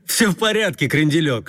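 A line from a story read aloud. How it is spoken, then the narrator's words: Laughing. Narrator (Russian): смеялся Куролесов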